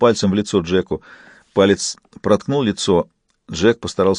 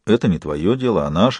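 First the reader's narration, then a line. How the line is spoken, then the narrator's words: Calm objection. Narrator (Russian): спокойно возразил Джек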